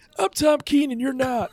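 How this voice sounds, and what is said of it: Imitates another person's voice. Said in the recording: “check out my Tom Keene impersonation ... That's not, that doesn't work so well.”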